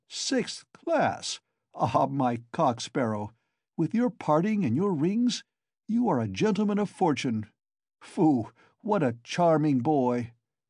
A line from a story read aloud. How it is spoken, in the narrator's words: broke into a nervous laugh right in Zamatov's face